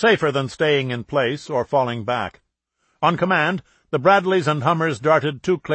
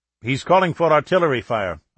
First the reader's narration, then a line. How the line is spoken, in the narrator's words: a Saudi intelligence officer said quickly